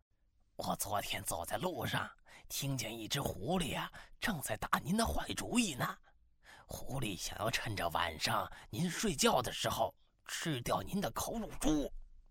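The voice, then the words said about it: Secretive whispered voice. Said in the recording (Chinese): “神神秘秘的凑近了老虎大王的耳朵，小声的说”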